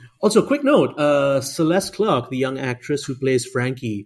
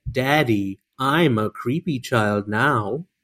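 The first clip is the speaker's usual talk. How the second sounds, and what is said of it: Creepy child voice impression of Frankie. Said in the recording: “Great Frankie impression”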